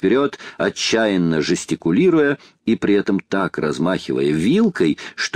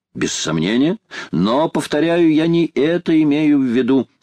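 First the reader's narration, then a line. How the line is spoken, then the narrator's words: Plain. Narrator (Russian): ответил Паганель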